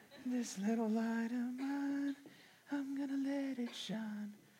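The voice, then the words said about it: Singing in high falsetto. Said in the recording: “I'm gonna do it in falsetto, so it's like Bee Gees.”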